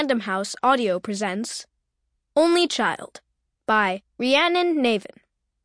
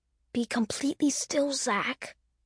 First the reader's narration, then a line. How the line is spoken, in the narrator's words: she whispered